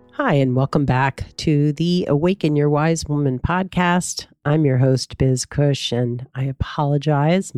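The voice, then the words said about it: Congested, slightly off voice. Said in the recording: “My voice is a little funky ... I probably sound very congested because I am.”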